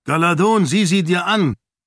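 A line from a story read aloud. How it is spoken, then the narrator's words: Called out. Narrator (German): rief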